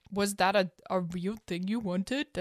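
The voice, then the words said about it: Imitated voice, French-sounding ending. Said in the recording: “That's my Anton impression. ... I don't know why I went French at the end there.”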